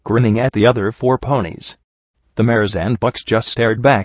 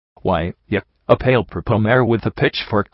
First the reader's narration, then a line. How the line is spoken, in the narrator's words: QT Mark stammered